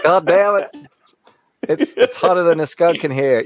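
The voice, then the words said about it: Put-on Texas accent. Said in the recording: “your Texas accent isn't too shabby either.”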